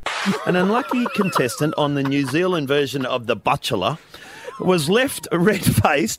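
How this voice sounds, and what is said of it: Put-on New Zealand accent. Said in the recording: “Was that your Kiwi accent?”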